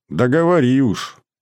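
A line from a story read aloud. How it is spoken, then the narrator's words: Grumbling. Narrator (Russian): проворчал я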